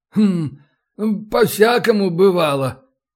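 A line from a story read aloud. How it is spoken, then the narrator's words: Hesitant mumble. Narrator (Russian): наконец промямлил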